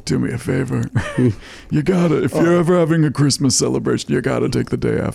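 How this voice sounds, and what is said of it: Half-committed imitation of another person's voice. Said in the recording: “that your impression of me doing Ken Savara? ... Yes, it is. ... But like 30%. I didn't really want to commit to it.”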